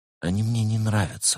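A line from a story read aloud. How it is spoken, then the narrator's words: Whisper. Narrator (Russian): шепнула Берта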